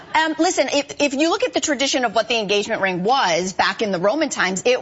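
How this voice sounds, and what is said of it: Usual voice. Nothing is said of it.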